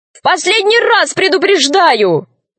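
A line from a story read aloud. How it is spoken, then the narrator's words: Shouting. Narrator (Russian): закричал Пашка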